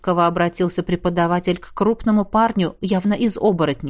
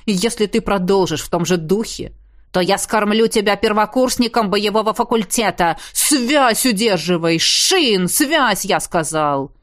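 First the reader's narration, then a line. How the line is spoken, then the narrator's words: Ghost's bark. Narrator (Russian): Рявкнул на ближайшего к нам призрак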